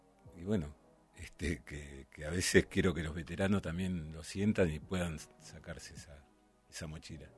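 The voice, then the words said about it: Deep announcer-style radio voice. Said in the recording (Spanish): “tenés voz de locutor”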